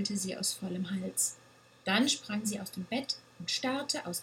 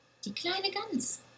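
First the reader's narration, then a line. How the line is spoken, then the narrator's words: Small goat's excited cry. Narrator (German): rief die kleine Ziege aufgeregt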